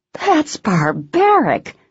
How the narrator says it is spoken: Shelby cried

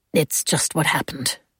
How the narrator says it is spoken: he said roughly

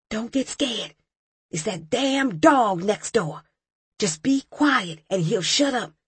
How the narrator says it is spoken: one of the guys whispered

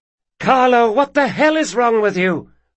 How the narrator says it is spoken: hollered Sabitha somewhere down the hall

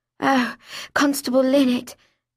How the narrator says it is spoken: I breathed in my best Olivia de Havilland voice

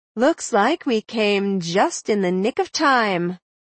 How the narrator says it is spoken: Maud said dryly

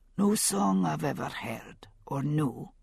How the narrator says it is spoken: he said softly

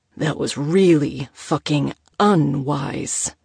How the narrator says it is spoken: Moses growled

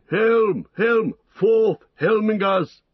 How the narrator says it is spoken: He shouted

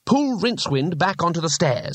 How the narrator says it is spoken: he snapped

